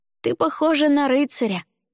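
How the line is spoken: Joyful. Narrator (Russian): радостно сообщил мне Дима

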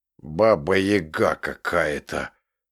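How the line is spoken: Deep bass voice from above. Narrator (Russian): пробасил слишком непосредственный Вася откуда-то из-под потолка

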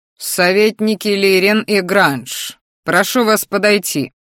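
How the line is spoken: Loud speech. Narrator (Russian): громко сказал Дартхари

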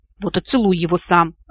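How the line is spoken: Snapping back. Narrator (Russian): огрызнулся лорд Винотор

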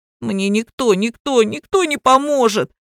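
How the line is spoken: Sobbing. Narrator (Russian): всхлипнул Кирик

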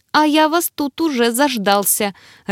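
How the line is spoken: Joyful, smiling. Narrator (Russian): радостно улыбнулся эльф

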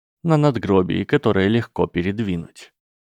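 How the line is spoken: Dry reply. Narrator (Russian): сухо ответил Снейп

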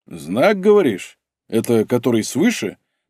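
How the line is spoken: Mocking question. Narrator (Russian): насмешливо спросил Стас

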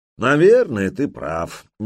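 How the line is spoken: Conceding sigh. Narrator (Russian): не стал спорить Торстейн и вздохнул

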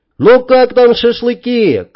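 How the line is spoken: Shouting. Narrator (Russian): крикнул Вадим

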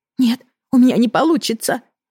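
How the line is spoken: Pleading. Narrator (Russian): взмолилась она

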